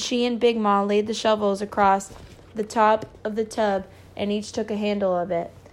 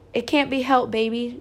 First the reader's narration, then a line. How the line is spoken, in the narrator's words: she said